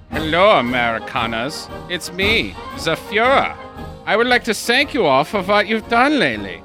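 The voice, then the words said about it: Terrible exaggerated German accent. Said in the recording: “in the grand tradition of terrible accents”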